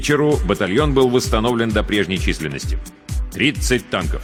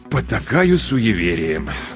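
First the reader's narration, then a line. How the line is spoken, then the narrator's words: Sighing. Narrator (Russian): вздохнул Агеев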